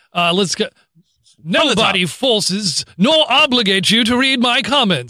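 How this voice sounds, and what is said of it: Put-on professorial reading voice. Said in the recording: “Can you read this in your professor voice?”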